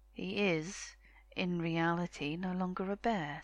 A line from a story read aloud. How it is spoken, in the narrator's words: said one